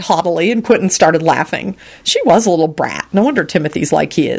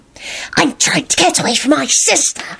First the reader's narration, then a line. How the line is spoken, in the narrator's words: she whispered furiously